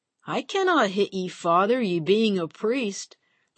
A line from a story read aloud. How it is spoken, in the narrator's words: the parishioner slurred